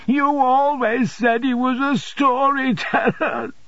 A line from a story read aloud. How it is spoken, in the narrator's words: sobbed Dora